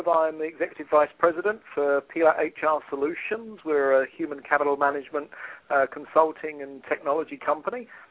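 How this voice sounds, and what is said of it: British accent from southeast England. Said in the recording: “as you can probably tell from the accent ... where is that accent from specifically? ... I was born in Kent in the United Kingdom, southeast UK”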